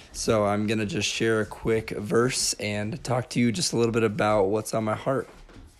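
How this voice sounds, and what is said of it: Weak, nearly lost voice. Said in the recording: “my voice is right on the edge of not having much”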